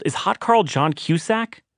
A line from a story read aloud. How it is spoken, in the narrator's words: One guy actually yelled